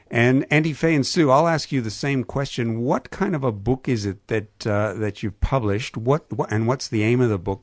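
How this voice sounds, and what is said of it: Canadian accent. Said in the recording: “my pronunciation, as you just heard, with my Canadian accent”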